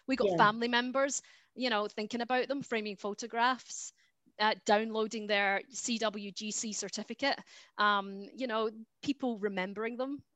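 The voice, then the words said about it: Scottish accent. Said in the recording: “you've got your lovely Scottish accent”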